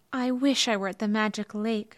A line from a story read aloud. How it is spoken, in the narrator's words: sighed